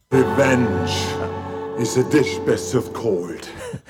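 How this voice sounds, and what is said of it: Austrian accent. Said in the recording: “accent is that? ... Austrian.”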